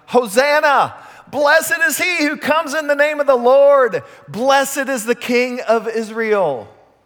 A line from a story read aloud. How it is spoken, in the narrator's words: shouting